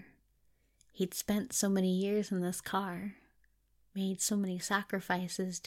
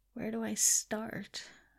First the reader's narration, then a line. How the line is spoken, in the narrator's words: Crowley murmured